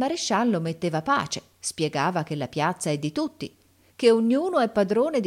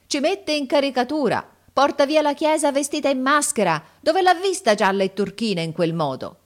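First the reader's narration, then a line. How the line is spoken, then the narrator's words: Crowd shouting. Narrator (Italian): Gridavano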